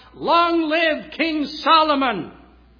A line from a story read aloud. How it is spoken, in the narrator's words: the people shouted